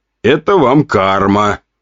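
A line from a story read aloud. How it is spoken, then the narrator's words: Grumbling. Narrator (Russian): проворчал я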